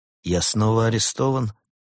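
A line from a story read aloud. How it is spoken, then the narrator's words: Tired question. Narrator (Russian): устало спросил Лаэрт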